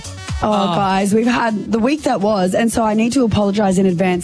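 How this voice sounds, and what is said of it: Very hoarse voice. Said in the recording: “My voice is very hoarse because I've been here, I've been there, and I've been everywhere.”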